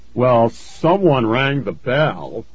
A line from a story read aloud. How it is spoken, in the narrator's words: John called in a booming voice